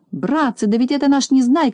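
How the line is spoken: Shout. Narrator (Russian): закричал Тюбик

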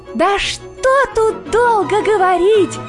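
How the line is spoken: Emboldened hare shouting. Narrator (Russian): кричал расхрабрившийся окончательно заяц

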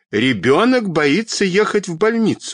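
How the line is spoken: Stern woman shouting. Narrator (Russian): снова закричала строгая тетя

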